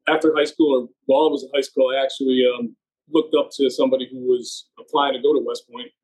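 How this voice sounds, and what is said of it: Central New Jersey accent. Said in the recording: “I'm actually from central New Jersey. So I've been in the Northeast for a while. You can probably tell from my accent.”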